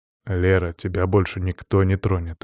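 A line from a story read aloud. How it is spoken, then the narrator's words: Soft. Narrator (Russian): мягко сказал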